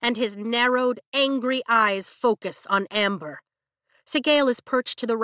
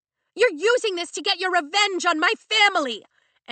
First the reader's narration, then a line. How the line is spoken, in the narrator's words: Amber shouts at Zayden